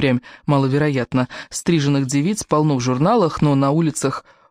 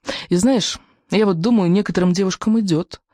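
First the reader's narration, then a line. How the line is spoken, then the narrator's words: Timid. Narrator (Russian): робко добавила Кора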